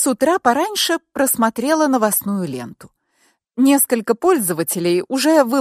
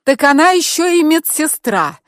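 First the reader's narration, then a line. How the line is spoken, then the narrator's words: Angry shout. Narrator (Russian): зло выкрикнула я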